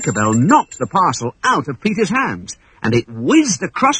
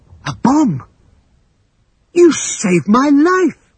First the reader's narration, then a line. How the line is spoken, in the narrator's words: gasped Peter in astonishment